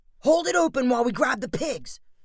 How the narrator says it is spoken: shouted Spencer

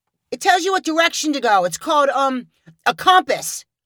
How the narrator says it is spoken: one boy shouted

